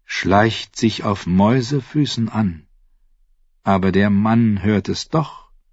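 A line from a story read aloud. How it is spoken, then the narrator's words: Plain. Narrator (German): sagte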